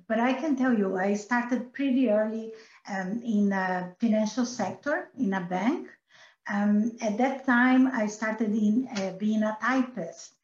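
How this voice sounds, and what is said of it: Brazilian Portuguese-accented English. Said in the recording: “as you can see by my accent, I am Brazilian”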